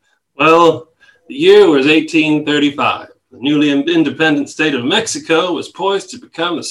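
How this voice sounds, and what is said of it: Usual voice. Nothing is said of it.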